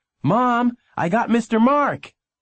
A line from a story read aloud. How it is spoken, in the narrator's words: had run all the way home to yell